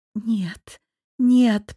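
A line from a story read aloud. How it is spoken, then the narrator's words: Babbled. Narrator (Russian): пролепетала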